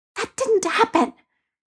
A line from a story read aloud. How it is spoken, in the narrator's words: Peter hissed at Ned